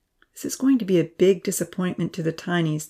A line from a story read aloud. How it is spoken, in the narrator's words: the professor sighed